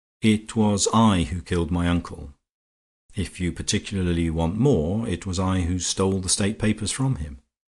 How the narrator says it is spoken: Horne Fisher said calmly

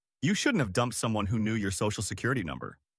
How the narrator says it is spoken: he laughed and said

